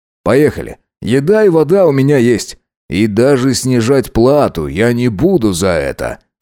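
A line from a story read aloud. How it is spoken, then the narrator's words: Wry snort. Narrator (Russian): хмыкнул он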